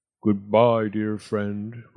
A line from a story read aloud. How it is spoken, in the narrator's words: rumbled Boris